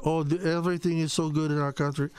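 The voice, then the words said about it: Mocking French accent imitating Karine Jean-Pierre. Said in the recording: “Corinne Jean-Pierre, in her little French accent”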